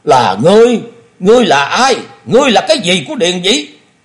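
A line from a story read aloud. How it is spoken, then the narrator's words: Roaring, out of patience. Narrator (Vietnamese): Thôi Công Đức hết nhịn nổi, y gầm lên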